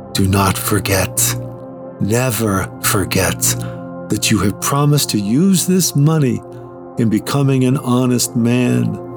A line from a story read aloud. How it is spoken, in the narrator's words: The bishop said in a low voice